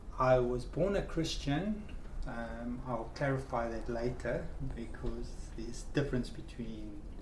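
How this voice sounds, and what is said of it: Strong South African accent. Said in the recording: “you've got a strong accent there ... I was born in South Africa”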